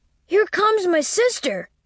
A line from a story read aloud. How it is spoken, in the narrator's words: cried the child